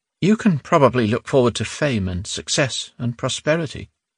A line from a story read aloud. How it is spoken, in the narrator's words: she said sadly